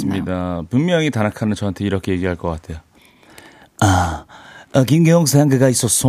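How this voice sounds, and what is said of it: Usual voice. Nothing is said of it.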